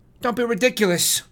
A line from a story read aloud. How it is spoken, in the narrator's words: she snaps